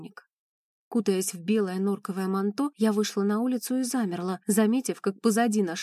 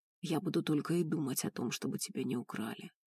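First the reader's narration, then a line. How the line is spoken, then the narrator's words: Hoarse speech. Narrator (Russian): хрипло говорил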